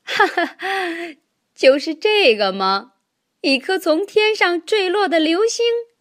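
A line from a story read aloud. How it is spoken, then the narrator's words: Loud laughter. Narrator (Chinese): 佩洛哈哈大笑起来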